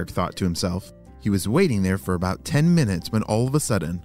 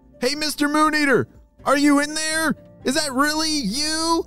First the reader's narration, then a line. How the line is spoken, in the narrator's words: he shouted towards the river